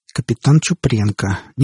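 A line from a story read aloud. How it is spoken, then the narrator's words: Quiet repetition. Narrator (Russian): негромко повторил Кальтер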